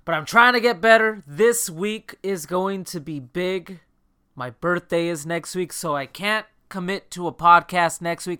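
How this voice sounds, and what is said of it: Slightly off, under-the-weather voice. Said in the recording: “my voice is a little bit off, I'm feeling slightly under the weather”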